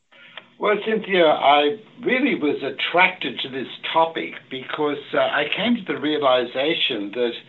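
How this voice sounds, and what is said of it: Australian accent. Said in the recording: “you have a little bit of a British accent ... I'm Australian ... those Australians and the people in the British Isles, I guess there's a little crossover with their accents”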